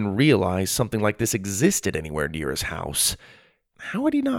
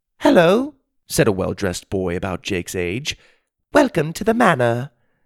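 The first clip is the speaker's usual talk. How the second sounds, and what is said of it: Pleasant British accent. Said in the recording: “He spoke in a pleasant British accent.”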